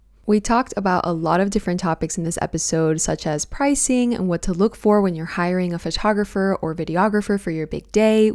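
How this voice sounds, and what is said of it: Unwell-sounding voice. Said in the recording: “I'm not feeling my best today. So if you hear that in my voice”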